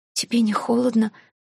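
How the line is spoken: Hoarse wheeze. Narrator (Russian): просипела я

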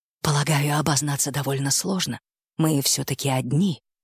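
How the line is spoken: Puzzled muttering. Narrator (Russian): пробормотал патриарх, явно не понимая, к чему она клонит

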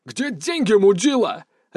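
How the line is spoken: Deafening bark. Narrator (Russian): рявкнул байкер, и его голос прозвучал оглушительно громко в этом замкнутом пространстве

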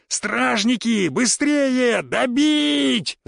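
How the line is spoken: Yelling. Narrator (Russian): заорал я

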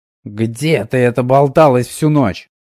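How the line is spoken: Angry hiss. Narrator (Russian): злобно прошипела Данка

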